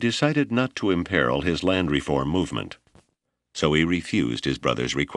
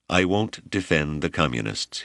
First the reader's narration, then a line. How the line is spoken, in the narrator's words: he said